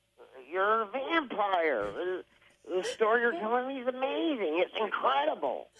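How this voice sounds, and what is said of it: Christian Slater impression. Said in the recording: “I did a Christian Slade impression ... It was Christian Slater interviewing a vampire.”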